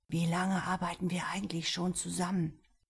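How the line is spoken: Quiet question. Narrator (German): Theo leise fragte

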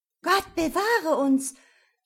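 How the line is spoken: Young ladies screaming. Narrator (German): schrien die Fräulein

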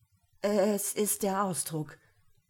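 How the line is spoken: Stammering. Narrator (German): stammelt

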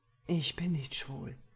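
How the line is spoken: Breathy whisper. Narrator (German): hauche ich ihm entgegen

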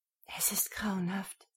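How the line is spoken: Whisper. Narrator (German): flüsterte sie

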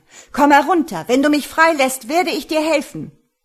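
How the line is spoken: Shouting. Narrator (German): schrie er

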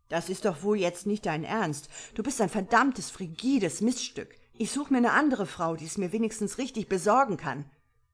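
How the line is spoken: Screaming while straining. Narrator (German): schrie Richard, während er versuchte, sich aus den Eisenketten zu befreien

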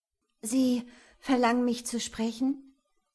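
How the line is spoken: Slightly slurring voice. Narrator (German): fragte sie mit leicht schleifender Stimme

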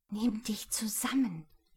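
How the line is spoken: Whisper. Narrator (German): flüsterte sie

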